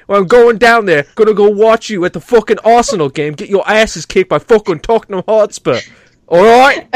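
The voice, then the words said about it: Put-on South England London accent. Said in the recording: “now I've gone from like Northern England to fucking South England, you know, fucking London ... he's making a muss of it”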